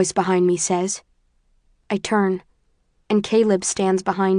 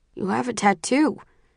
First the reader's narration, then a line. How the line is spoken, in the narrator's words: he says, his voice muffled